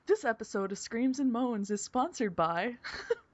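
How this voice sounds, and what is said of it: Announcer-style radio voice. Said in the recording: “It's the radio voice.”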